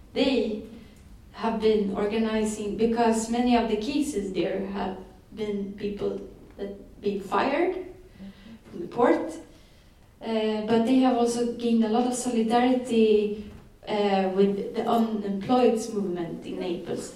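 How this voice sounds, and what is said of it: Italian-accented English. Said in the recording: “maybe speak English with Italian accent.”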